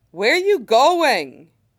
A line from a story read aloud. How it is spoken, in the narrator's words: Alex shouts at him from the bedroom